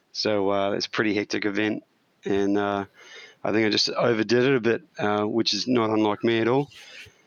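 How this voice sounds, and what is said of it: Croaky, partly lost voice. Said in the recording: “a bit croaky today ... a little bit croaky today. I lost my voice”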